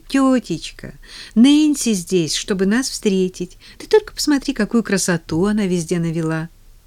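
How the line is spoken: Forced cheer, trembling voice. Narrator (Russian): Поллианна старалась говорить весело, хотя ее голос заметно дрожал

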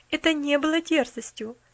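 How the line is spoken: Calm objection. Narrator (Russian): спокойно возразила миссис Сноу

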